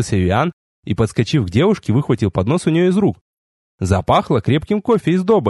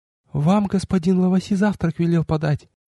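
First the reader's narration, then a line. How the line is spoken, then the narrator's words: Frightened girl's whisper. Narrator (Russian): девушка почему-то испуганно вздрогнула и прошептала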